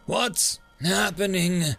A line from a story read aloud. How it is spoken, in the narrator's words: he asked, gasping slightly at the feeling of the tingling pain down his regenerated and rebuilt spine